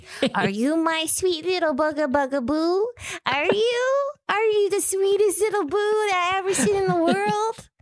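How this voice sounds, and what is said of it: High-pitched cartoonish baby voice. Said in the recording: “in a high little baby voice ... in a cartoon mouse voice”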